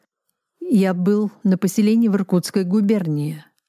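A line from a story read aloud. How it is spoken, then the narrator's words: Plain. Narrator (Russian): ответил Кобзев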